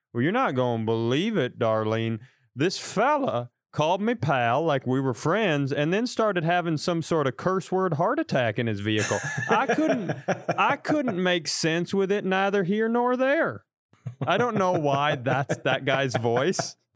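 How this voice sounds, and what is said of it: Slow put-on Southern accent. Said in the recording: “the Southern accent, it's so slow”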